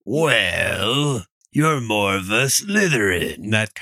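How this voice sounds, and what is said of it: Raspy smoker's-voice character impression. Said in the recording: “He's sort of a smoker's voice.”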